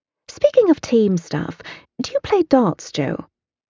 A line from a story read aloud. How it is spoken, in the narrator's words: I scoff